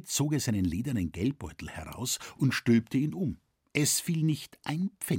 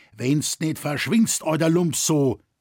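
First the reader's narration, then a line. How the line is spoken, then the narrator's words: Furious shout. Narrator (German): Der Kramer Kropfet war wütend über diesen Zwischenfall ... schrie er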